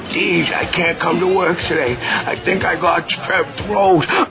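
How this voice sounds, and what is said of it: Fake sick, ill-sounding voice. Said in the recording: “You sounded so sick on the phone ... Do that sick voice”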